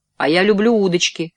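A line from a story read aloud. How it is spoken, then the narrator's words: Plain. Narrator (Russian): ответил я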